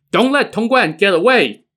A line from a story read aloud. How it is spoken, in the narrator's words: bandits shouting